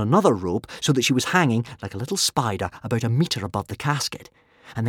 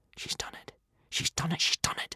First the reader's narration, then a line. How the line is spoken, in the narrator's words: whispered Hiccup to himself